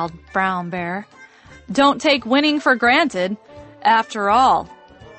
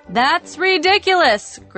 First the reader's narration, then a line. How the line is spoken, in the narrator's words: Grizzly hollered